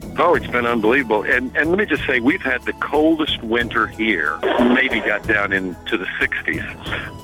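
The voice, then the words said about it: Southern US Kentucky accent. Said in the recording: “that sounds like a Texas accent, is it? ... It's actually Kentucky. ... It's in the south.”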